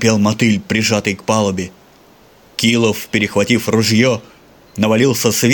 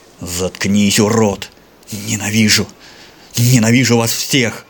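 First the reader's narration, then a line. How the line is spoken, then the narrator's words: Enraged hiss. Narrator (Russian): шипел взъярившийся Килов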